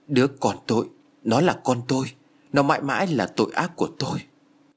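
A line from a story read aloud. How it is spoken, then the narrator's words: Trembling, shaken voice. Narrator (Vietnamese): Sắc mặt của Béc Na vụt đổi biến một cách nhanh chóng, nó chuyển sang tái nhợt với giọng run rẩy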